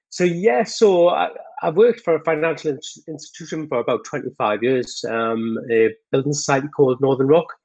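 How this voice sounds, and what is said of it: Geordie northern English accent. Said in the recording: “I'm from the north of England, which is a very Geordie accent ... So we tend to talk very fast.”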